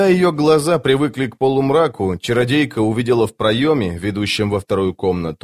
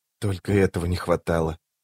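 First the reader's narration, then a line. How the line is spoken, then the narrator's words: Whisper. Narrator (Russian): прошептала рваная снасть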